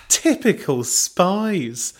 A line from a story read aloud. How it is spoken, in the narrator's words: Belinda laughed